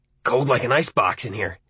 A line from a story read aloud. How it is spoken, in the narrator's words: he grunted